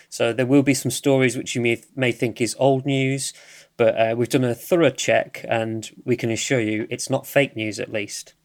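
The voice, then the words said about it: British accent. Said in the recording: “I'm from the UK, if you cannot tell by my accent”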